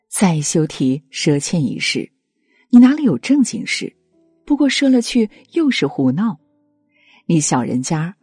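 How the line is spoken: Sneering. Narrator (Chinese): 朴实人便冷笑道

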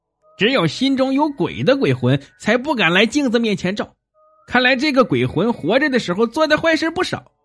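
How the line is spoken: Cold sneer. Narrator (Chinese): 怪鸟冷笑道

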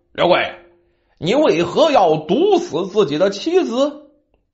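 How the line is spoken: Stern harsh question. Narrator (Chinese): 县令惊堂木一拍，啪，厉声问道

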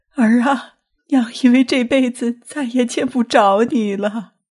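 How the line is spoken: Crying. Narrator (Chinese): 谢东的娘哭道

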